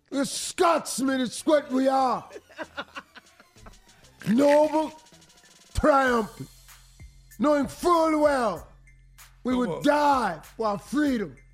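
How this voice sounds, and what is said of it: Put-on Scottish accent, rousing speech. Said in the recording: “I like his accent.”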